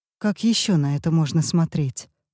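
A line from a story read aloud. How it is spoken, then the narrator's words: Strained forced calm. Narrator (Russian): продолжает Юсефин и изо всех сил старается говорить спокойно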